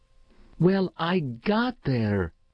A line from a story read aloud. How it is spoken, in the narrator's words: announced fiercely